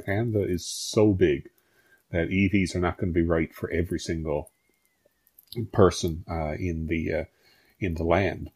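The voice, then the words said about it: Atlantic Canadian accent. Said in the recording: “the best accent we've had on this show so far ... Doesn't ... accent just make you want to jump on a plane and head to Atlantic Canada?”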